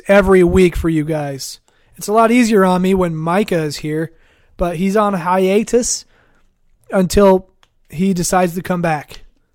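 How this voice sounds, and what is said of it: Strained, fading hoarse voice. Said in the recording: “Losing your voice again... Yes, I am losing my voice... I'm willing to lose my voice”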